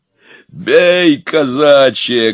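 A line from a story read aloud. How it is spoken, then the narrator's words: Barked shout. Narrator (Russian): гаркнул Илья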